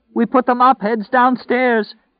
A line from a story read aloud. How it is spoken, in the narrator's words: cried out